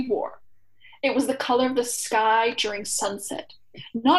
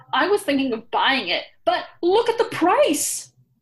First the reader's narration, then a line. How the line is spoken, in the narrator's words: cried Kieran